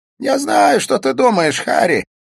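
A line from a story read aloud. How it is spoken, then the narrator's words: Laughing. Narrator (Russian): засмеялся Смит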